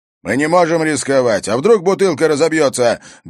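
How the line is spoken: Barking over traffic noise. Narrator (Russian): гаркнул Харри, пытаясь перекричать шум транспорта

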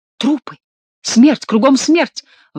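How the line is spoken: Young man's exclamation. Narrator (Russian): воскликнул молодой человек

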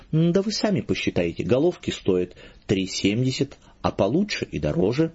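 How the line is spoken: Professional explaining tone. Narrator (Russian): объяснял дьякон профессиональным тоном

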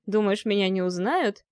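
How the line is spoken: Chuckling. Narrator (Russian): хохотнул казак

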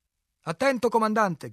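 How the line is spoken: Shouted. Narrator (Italian): gridò

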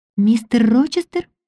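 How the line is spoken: Exclamation. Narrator (Russian): воскликнула

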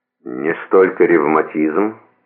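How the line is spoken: Gloomy reply. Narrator (Russian): мрачно ответил Морепа

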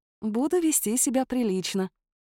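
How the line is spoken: Tender, smiling. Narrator (Russian): ласково улыбнулась я

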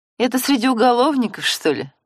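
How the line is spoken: Laughing. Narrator (Russian): засмеялась Ирена

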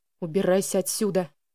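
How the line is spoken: Angry growl. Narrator (Russian): прорычал он

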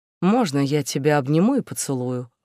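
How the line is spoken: Timid question. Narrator (Russian): робко поинтересовался Йонатан у Орнии

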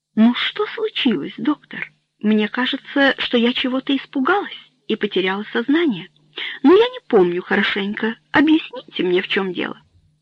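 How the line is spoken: Weak, almost calm tone. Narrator (Russian): почти спокойным тоном сказала Этьену

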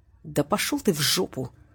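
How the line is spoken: Spiteful words through teeth. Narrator (Russian): Злобно процедил

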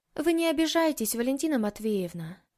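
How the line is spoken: Sighing. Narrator (Russian): вздохнула Маша

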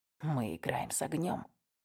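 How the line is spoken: Hoarse. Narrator (Russian): сипло произнес Уэст

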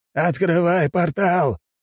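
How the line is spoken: Old man shouting. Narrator (Russian): крикнул дед

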